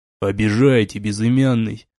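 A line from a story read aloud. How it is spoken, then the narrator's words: Serious tone, vampire. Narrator (Russian): уже полностью серьезным тоном ответил вампир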